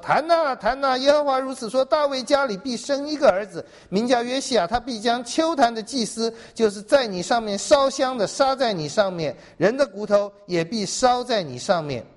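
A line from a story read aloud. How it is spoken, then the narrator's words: Man of God crying out. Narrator (Chinese): 神人奉耶和华的命向坛呼叫说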